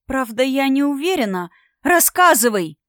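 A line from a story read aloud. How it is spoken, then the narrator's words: Many students exclaiming in unison. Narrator (Russian): Воскликнули в унисон все находящиеся на тренировочном поле студенты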